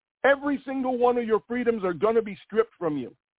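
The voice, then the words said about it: Screaming, loud ranting voice. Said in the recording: “I'm screaming”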